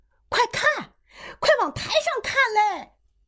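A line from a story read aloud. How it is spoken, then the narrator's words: Shout from outside. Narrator (Chinese): 外边有人喊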